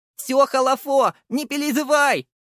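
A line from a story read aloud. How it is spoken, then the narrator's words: Shouted. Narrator (Russian): прокричал я ей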